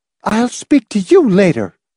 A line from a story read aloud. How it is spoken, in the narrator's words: snapped, chin up, eyes blazing